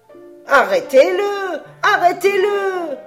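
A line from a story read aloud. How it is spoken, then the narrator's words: Shouting. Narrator (French): criait Geppetto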